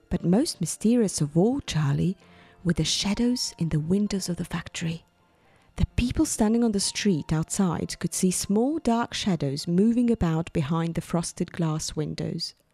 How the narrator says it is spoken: he said softly

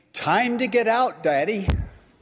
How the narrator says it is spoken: Suddenly, our little toddler exclaiming

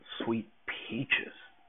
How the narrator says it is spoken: breathed

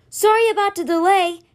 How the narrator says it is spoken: he called out to Simber

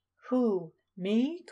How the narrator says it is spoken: called a wheezing voice right in his ear

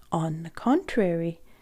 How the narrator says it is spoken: Uncle Tobbs said gently and quietly

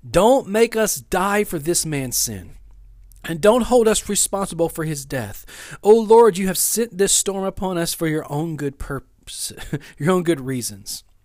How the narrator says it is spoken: pleaded

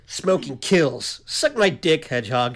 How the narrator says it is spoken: snapped

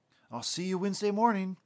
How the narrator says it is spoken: he was excitedly telling him

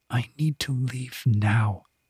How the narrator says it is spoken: She dropped her chin slightly and whispered

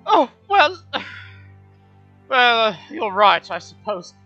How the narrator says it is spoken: He sighs, and he says

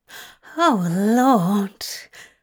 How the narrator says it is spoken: Aziraphale growled

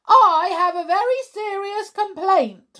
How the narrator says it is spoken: Raj announced angrily

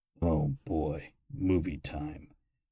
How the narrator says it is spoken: Croker muttered

